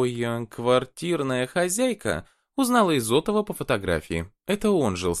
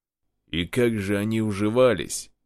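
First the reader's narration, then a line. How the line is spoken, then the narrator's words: Snort. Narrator (Russian): хмыкнул полковник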